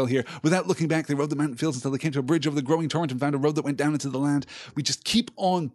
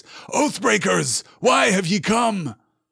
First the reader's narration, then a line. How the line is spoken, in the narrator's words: Aragorn … he cried in a great voice